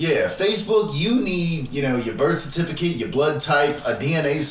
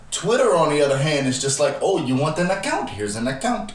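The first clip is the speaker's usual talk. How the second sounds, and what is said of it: Put-on accent. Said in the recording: “Why did you use that accent? ... That accent was unnecessary. ... That accent was perfect.”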